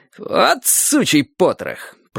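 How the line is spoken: Furious, through gritted teeth. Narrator (Russian): процедил он сквозь зубы с яростью, намного превосходившей мою

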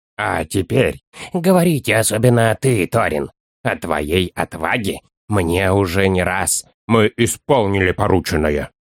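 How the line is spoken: Hoarse, agitated. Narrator (Russian): как всегда в минуту волнения хрипло произнес Торин

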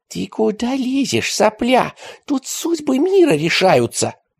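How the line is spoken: Hissed. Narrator (Russian): прошипел он

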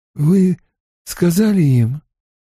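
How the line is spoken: Hoarse. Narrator (Russian): хрипло вымолвил Ранд

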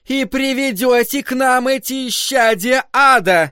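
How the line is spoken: Shouted out. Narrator (Russian): выкрикнула миссис Кармоди

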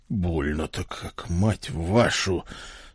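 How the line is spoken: Strained groan. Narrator (Russian): с трудом простонал я

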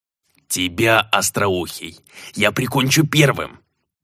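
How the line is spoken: Wheezed by a runt. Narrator (Russian): просипел недомерок

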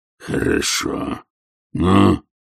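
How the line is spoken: Questioning growl. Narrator (Russian): вопросительно прорычал он

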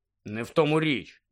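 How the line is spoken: Grumbling. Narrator (Ukrainian): буркнув Рон

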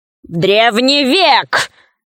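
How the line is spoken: Shouted. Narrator (Russian): закричал Кусандра

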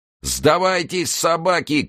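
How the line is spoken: Shouting crowd. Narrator (Russian): кричали турки

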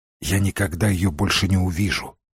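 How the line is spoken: Whisper. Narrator (Russian): прошептал он

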